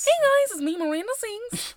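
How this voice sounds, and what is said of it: Good impression of Miranda Sings. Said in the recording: “That was a good impression. ... that was her impression”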